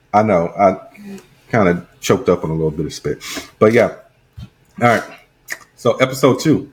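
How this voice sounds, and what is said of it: Usual voice. Nothing is said of it.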